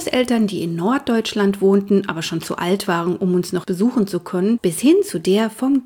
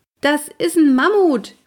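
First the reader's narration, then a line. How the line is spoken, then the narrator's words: Calling upward. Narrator (German): rief ich zu Walli hoch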